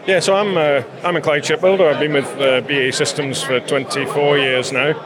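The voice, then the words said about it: Non-local accent. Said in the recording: “your accent. You're not from around here”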